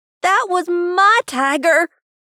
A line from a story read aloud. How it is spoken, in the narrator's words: Rob screamed